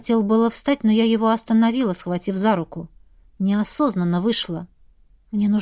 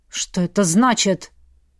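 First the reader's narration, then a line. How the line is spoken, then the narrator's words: Displeased booming. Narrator (Russian): прогремел недовольный Мстислав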